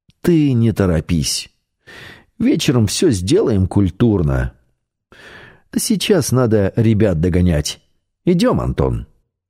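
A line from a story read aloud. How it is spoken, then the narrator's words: Almost gentle. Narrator (Russian): почти ласково сказал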